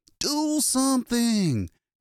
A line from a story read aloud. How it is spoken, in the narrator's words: he screamed